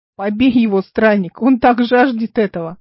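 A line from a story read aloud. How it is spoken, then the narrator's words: Shouted. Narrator (Russian): крикнул кто-то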